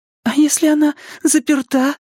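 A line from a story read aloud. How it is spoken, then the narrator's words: Squeaking. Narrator (Russian): пискнула Беверли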